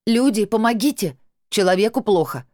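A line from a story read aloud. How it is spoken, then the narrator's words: Shouted repeatedly. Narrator (Russian): несколько раз прокричала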